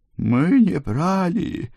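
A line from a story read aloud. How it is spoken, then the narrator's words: Moaning mother, crying. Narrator (Russian): простонала ее мать, на миг прекратив реветь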